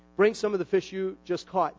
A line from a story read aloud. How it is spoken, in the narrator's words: Jesus said